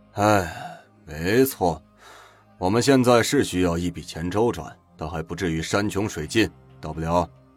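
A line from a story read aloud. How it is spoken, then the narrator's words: Sighing. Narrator (Chinese): 汪元庚叹了口气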